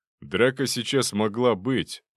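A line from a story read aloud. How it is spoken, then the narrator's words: Gloomy reply. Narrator (Russian): мрачно ответил Зубов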